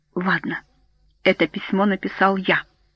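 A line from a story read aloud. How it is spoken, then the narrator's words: Quiet but intense. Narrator (Russian): Майкл говорил негромко, но впечатление было такое, что он кричит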